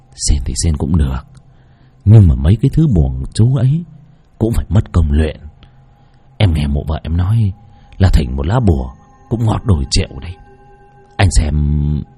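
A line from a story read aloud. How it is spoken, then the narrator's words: Whispering. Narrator (Vietnamese): Lão Lĩnh thì thầm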